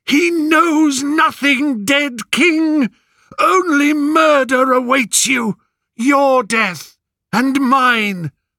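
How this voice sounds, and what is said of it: Hoarse, strained shouting voice. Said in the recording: “Cassandra's voice, hoarse with effort.”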